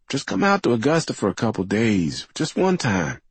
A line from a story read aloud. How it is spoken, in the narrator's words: he pleaded